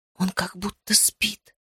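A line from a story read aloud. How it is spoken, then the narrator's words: Whispered. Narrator (Russian): прошептала я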